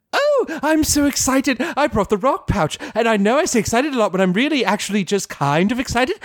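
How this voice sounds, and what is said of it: Excited Pinkie Pie impression. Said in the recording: “Rarity does a Pinkie Pie impression”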